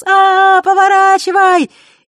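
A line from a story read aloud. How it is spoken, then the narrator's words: Ringing laughter. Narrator (Russian): и заливисто смеялась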